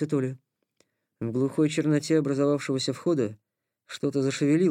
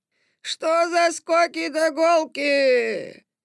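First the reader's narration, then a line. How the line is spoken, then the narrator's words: Creaky voice. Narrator (Russian): проскрипел он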